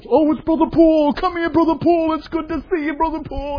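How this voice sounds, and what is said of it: Put-on Brooklyn Jewish accent. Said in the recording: “their Brooklyn Jewish accent coming out”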